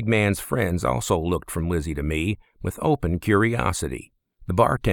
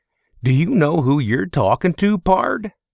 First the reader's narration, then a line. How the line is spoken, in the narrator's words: One of the other men gave a crooked laugh and asked me